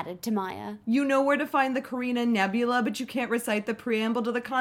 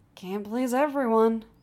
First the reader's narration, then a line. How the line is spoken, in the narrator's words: Sean sighed